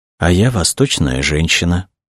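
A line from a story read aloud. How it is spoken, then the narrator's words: Whisper. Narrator (Russian): прошептала она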